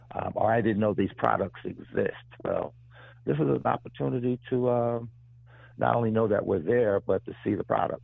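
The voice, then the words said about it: Rough, unwell-sounding voice. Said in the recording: “Excuse my voice. I'm getting over a summer cold.”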